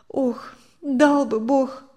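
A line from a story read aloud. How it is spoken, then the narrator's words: Sighing woman. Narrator (Russian): вздохнула Мария Семеновна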